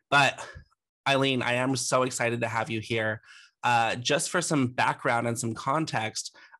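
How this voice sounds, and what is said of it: Voice altered by a cold. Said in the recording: “my voice is a little different this episode, but I do have a little bit of a cold ... It's just my voice.”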